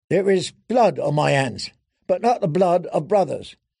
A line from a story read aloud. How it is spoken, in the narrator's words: he said wearily